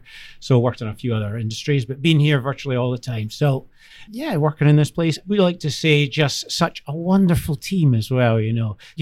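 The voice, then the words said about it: Strong Scottish accent. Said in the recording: “accent ... can we get a translator for the Scottish podcast host? ... you can't understand the thing that comes out of your mouth”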